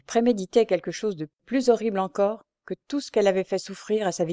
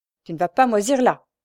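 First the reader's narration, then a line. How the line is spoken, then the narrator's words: Mother shouting angrily. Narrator (French): criait-elle à son fils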